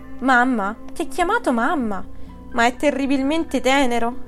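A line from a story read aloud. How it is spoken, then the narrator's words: Exclaiming. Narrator (Italian): riuscì a esclamare Diderot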